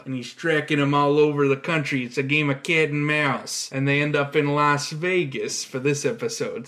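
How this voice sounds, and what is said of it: Exaggerated Chicago accent. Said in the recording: “I'm doing an exaggerated Chicago accent”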